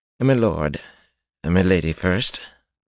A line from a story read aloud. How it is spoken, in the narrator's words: Balwer said in that dry voice